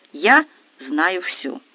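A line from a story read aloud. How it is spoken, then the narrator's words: Calm, confident statement. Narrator (Russian): Арина же, вдохновленная удачей, спокойно заявляет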